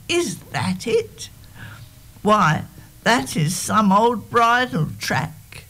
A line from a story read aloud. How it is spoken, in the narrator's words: cried